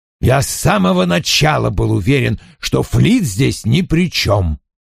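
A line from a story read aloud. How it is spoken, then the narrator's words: Grumbling. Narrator (Russian): проворчал Вульф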